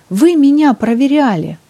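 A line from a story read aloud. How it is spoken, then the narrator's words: Indignant exclamation. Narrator (Russian): возмущенно воскликнула она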